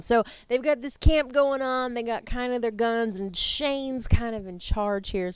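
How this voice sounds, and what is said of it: Put-on Southern US accent. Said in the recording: “I took on a southern accent. It happened.”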